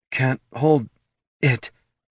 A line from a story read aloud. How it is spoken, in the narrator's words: gasped Laruna